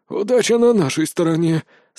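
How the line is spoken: Relieved exhale. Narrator (Russian): с облегчением выдохнул Брон

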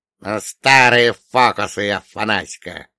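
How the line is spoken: Grumbling. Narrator (Russian): проворчал он

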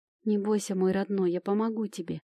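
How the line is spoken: Tender whisper. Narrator (Russian): прошептала

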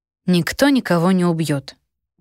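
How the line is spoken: Answered calmly. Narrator (Russian): спокойно ответила я

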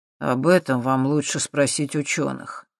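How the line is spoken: Grim smirk. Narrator (Russian): мрачно усмехнулся Юрий

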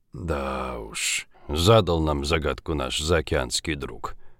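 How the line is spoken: Muttering. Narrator (Russian): пробормотал Жигулин

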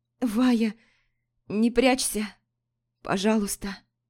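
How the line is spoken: Strained hoarse wheeze. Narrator (Russian): Хрипела Лорея, с трудом передвигаясь

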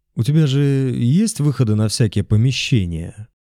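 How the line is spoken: Uncertain. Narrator (Russian): неуверенно сказал он

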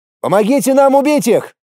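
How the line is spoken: Shout. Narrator (Russian): крикнул я им

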